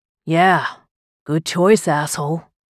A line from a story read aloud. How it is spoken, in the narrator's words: he grumbled